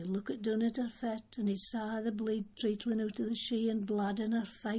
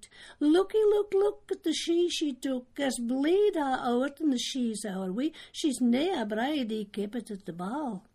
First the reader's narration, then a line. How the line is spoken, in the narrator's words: a twa cushy doos cried out